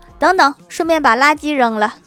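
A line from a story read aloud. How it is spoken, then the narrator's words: Shouting. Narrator (Chinese): 郭大嫂又喊道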